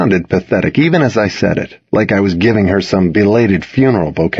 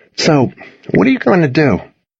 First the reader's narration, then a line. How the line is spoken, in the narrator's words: sighed